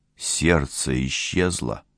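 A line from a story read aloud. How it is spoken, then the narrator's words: Muttered. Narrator (Russian): пробормотал техник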